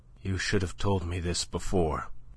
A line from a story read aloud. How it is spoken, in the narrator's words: she said in a dull voice that she strove to render steady